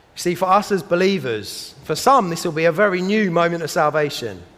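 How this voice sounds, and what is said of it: South London accent. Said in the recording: “my South London accent, it sounds a little bit more like woes than wows”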